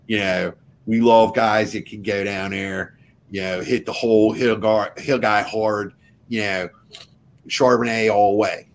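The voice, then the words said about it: Put-on South Philly accent. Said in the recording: “I went all the way down there to South Philly accent. ... That's how we talk in Fishtown.”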